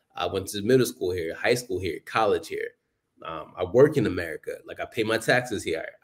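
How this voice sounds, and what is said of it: American accent. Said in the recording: “I got an American accent.”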